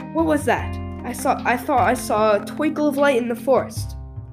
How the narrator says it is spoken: Balin, who was a little way ahead, called out

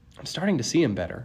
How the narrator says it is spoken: I muttered

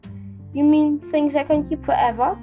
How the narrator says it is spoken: said Josh

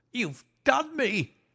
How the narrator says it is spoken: he cried

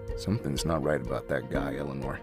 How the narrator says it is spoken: Dad mumbled

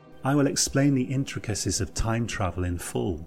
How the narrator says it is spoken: he said

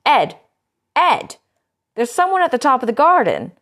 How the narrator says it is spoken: Harriet was standing on the back doorstep when she started to shout

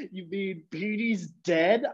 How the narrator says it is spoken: I choked out the words

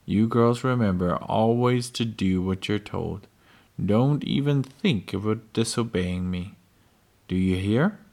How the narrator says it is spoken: said, in a terrible voice

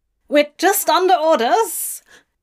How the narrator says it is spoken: the demon squeaks

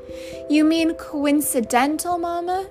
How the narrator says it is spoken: She called out

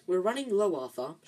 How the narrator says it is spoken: she sighed

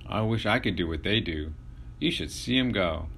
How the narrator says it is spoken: exclaimed

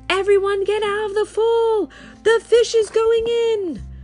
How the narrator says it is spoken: The fireman yelled

